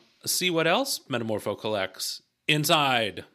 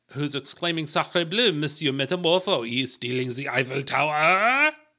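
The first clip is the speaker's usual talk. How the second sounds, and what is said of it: Comic French accent. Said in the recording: “That's a very good French comic impersonation.”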